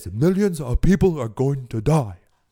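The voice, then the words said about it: Imitates another person's voice. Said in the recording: “that's my Bernie Sanders impersonation ... I know I'm terrible ... I'm not a good impersonationist, impressionist”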